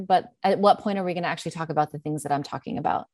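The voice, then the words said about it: New York American English accent. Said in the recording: “I use a certain type of American English and it's not put on. The accent is not put on ... This is not a practiced accent. I'm from New York ... my accent”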